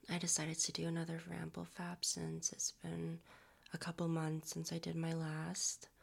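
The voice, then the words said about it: Raspy, strained voice. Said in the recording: “my voice is a little raspier than usual. I'm recovering from a little bit of like a cold ... my voice is still a little strained”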